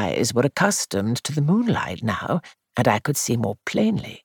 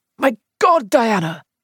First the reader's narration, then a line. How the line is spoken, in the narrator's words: cried